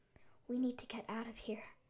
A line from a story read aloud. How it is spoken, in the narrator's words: Emma whispered, a chill creeping down her spine